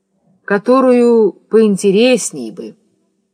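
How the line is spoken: Sighing request. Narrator (Russian): он вздохнул и попросил

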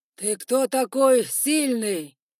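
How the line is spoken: Roared. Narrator (Russian): проревел Шерхостень

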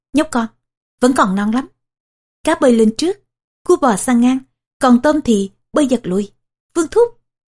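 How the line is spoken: Laughing. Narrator (Vietnamese): Kỷ Lăng Quân bật cười vài tiếng

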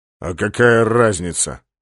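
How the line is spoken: Gloomy question. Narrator (Russian): мрачно спросил полубой

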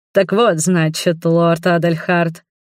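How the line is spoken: Scholar's snort. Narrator (Russian): хмыкнул магистр

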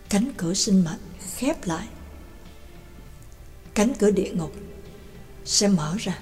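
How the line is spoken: Muttered. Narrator (Vietnamese): Trắc Mộc Cường Ba lẩm bẩm

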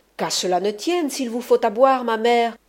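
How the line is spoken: Exclaimed. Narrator (French): s'écria la Escalanta

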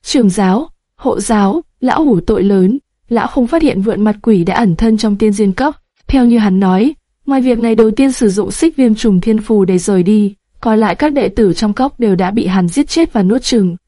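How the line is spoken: Tearful, trembling voice. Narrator (Vietnamese): Thân đồ trưởng lão, mắt ông đầy nước mắt, giọng nói run rẩy

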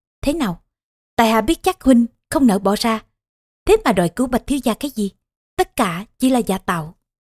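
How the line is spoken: Smiling. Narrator (Vietnamese): Công Tôn Diễn mỉm cười

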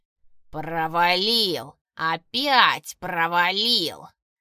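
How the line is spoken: Grating hiss. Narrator (Russian): шипел, и его голос был похож на скрежет ржавого железа

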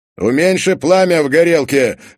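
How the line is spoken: Shout. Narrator (Russian): выкрикнул Сергеев

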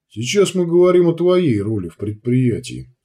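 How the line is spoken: Calm. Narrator (Russian): спокойно произнес Витольд

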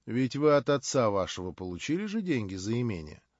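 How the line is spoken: Calm. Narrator (Russian): спокойно заметил Николай Всеволодович

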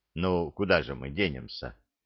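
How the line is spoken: Sigh. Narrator (Russian): вздохнул Мудрецкий

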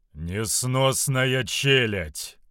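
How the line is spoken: Booming voice. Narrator (Russian): прогремел сын всеотца

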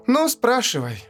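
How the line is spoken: Sigh. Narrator (Russian): вздохнула она

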